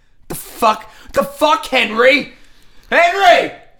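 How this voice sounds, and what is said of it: Yelling. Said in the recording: “That's why I'm yelling.”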